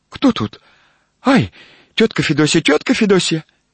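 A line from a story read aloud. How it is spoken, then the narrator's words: Frightened young woman's question. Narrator (Russian): молодой женский голос испуганно спросил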